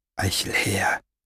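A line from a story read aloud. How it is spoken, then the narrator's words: Whisper. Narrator (German): Es war nur ein Flüstern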